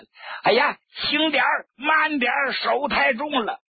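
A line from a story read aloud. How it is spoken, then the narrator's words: Squealing like a pig. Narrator (Chinese): 张国焘像杀猪似的就叫起来了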